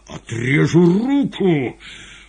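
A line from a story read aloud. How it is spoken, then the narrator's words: Menacing shout. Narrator (Russian): Азазела грозно закричал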